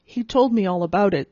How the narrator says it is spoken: said Brother Anthony, yawning

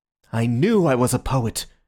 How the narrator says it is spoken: cried Syme in a sort of ecstasy

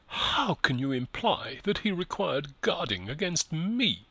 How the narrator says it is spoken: cried Eustacia, passionate tears in her eyes

